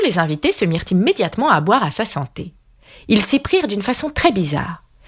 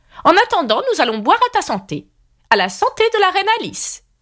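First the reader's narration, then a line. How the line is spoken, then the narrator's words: Screaming at full strength. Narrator (French): hurla-t-elle de toutes ses forces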